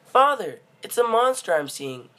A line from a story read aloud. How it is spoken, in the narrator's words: he yelped